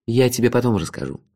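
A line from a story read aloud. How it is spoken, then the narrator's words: Calm reply. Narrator (Russian): спокойно ответил принц Джифа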